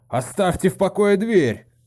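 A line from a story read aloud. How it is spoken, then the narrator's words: Shouted. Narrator (Russian): крикнул он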